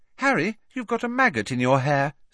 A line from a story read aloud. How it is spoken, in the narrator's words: said Ginny cheerfully